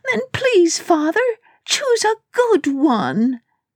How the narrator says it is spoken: Elena sobbed

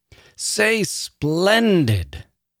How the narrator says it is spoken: the woman bellowed once again

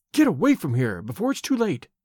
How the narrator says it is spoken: she whispered

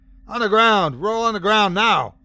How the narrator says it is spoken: I shouted over the piercing echo of his agony

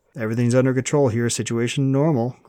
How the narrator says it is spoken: Grant said, his tone highly amused

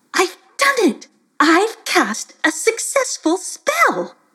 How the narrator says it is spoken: Throwing her hands to her head, cried out

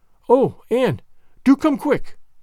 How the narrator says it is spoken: implored Diana, nervously

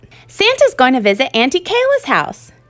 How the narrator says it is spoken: Jude exclaimed excitedly

